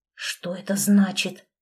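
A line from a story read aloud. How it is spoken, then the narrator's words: Whispered. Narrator (Russian): прошептал он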